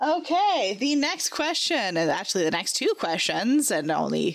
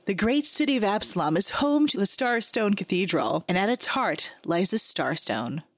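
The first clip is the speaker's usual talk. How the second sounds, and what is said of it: Dramatic voiceover narrator voice. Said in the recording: “do a proper VO voice”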